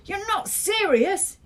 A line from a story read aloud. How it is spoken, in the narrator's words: yelled